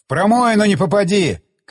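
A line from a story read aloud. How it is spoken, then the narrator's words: Shouting. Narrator (Russian): крикнул я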